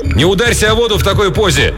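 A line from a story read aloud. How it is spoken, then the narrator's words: Shouting. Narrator (Russian): Рик прокричал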